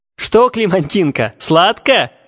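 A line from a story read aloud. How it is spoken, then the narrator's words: Mocking laughter. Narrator (Russian): хохотали одни, видя, как беспутная вертелась от боли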